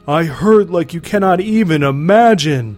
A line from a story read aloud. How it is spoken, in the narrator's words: Durga bellowed